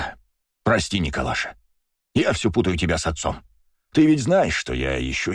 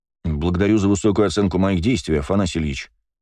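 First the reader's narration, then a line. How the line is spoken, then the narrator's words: Calm reply. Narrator (Russian): спокойно ответил я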